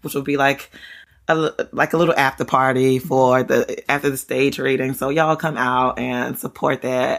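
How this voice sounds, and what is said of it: Excited, thrilled voice. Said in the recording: “I'm so thrilled. I hope you can hear it in my voice. ... I couldn't be more excited”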